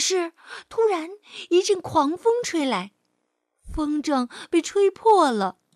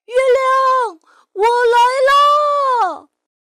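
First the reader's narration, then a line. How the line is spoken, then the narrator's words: Joyful shout. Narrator (Chinese): 提莫龙高兴的大叫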